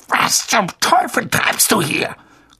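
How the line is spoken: Growl through clenched teeth. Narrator (German): knurrte Onkel Vernon mit zusammengebissenen Zähnen

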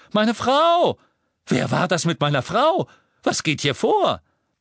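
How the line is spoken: Shouted. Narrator (German): der echte Red Cattermole schrie

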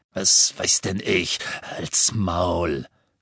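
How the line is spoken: Coarse growl. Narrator (German): knurrte jemand, und Harry erkannte die ordinäre Stimme von Amicus, dem Bruder von Alecto Carrow

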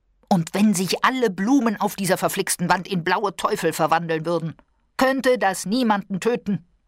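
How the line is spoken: Shout. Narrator (German): schrie er

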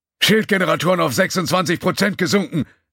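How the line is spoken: Shouting over alarm noise. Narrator (German): rief Kalorg über den Lärm aus Alarmsignalen und Statusberichten der anderen Mitglieder der Brückenbesatzung

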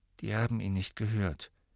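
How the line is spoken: Flat toneless voice. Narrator (German): sagte Harry tonlos

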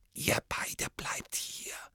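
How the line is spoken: Whisper. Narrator (German): flüsterte Hermine

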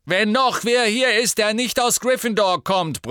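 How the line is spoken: Annoyed bellow. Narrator (German): brüllte Harry, der allmählich ernsthaft genervt war

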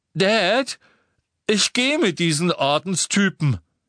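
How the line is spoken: Loud voice. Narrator (German): sagte Dudley mit lauter Stimme

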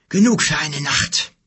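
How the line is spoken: Panting. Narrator (German): keuchte er

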